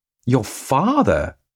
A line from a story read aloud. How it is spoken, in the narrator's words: I gasped